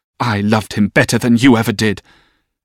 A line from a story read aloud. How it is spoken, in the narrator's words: fiercely telling her